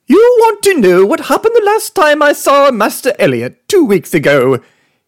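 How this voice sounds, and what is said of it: Flawless English accent. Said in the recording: “He hails from Great Britain, England, to be precise, but you can tell that based on his flawless English accent.”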